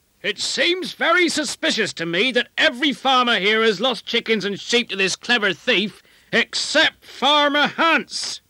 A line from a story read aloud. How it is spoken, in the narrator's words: someone at the back of the grand hall yelled out